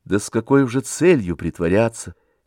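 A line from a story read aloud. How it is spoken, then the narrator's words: Quiet. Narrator (Russian): тихо сказала Варенька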